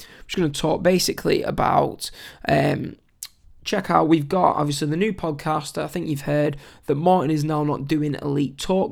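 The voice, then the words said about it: Strained, failing voice. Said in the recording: “my voice is struggling to keep going”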